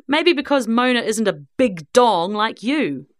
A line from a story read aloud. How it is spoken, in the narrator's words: sneered Tess